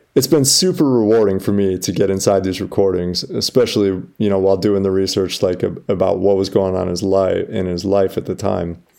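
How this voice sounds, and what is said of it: Strained, hoarse, fading voice. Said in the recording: “You can hear I'm losing my voice just from reading this.”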